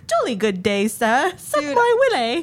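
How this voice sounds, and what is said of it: Put-on British accent. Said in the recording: “she just, like, burst into a British accent”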